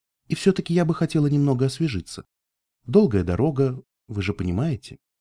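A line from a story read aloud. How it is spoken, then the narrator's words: Soft speech. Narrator (Russian): Мягко проговорила я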